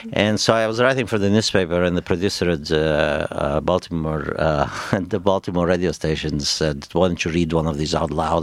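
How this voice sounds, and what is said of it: Speaks with a noticeable accent. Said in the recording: “nobody hears what I'm saying because I have this accent.”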